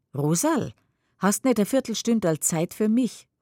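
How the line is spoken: Calling out. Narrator (German): ruft sie

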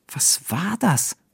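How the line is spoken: Anxious question. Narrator (German): fragt Tim ängstlich

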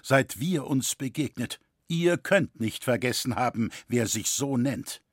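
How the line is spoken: Firm reply. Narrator (German): entgegnete dieser fest

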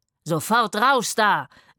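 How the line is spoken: Roaring. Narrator (German): brüllte er

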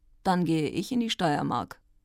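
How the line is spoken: Calm. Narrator (German): Der Fürst sagte ruhig

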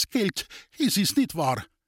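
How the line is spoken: Trembling voice. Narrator (German): fragte Reser mit bebender Stimme

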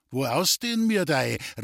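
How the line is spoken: Friendly call. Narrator (German): rief ihr Wendel freundlich zu

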